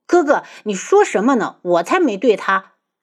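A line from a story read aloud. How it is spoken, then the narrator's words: Embarrassed anger. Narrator (Chinese): 花千颜羞怒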